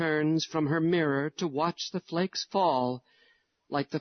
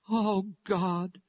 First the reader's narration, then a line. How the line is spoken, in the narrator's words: her sighs have stifled the voice of her prayer